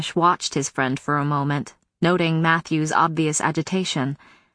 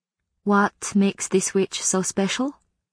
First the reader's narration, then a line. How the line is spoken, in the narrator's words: he asked quietly